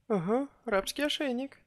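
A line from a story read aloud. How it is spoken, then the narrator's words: Nervous giggle, goddess. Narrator (Russian): нервно хихикнула богиня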